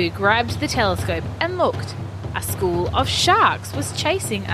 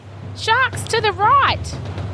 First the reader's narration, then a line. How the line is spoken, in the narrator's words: Oscar cried anxiously